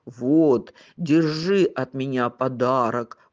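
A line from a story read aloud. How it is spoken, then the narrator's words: Bear's growl. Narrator (Russian): прорычал медведь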